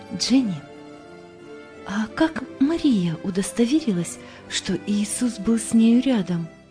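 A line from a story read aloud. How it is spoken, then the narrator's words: Quiet. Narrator (Russian): тихо произнесла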